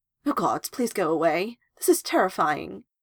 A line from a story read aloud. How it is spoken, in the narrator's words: stammer out